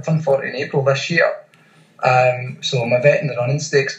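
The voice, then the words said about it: Scottish accent. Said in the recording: “obviously I'm Scottish, you can tell that by the accent”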